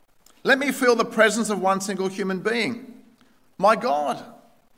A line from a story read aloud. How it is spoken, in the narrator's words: he howled again